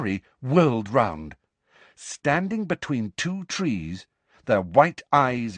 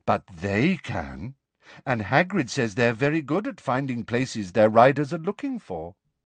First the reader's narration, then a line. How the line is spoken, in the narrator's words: said Luna in a dignified voice